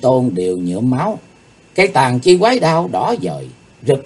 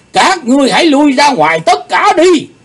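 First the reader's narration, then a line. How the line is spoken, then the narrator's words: Roar. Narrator (Vietnamese): tiếng gầm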